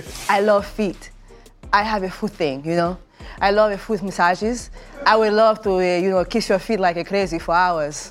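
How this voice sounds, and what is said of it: Put-on Latin lover accent. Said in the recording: “they're asking me to do a Latin lover accent”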